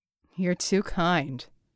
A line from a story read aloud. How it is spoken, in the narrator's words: Red said dryly